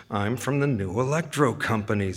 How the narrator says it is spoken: Zame mutters

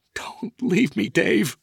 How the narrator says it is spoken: Felicia sobbed

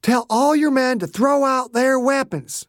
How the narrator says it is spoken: Dew shouted, loud enough so the men in the building could hear him

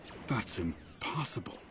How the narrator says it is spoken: Gull muttered

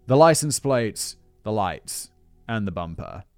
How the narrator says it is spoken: he coldly replied

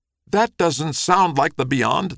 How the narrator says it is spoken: cried

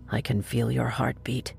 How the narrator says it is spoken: The man whispered

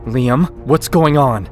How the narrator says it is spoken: I yell

